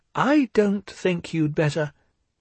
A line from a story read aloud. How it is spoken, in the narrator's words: began Piglet nervously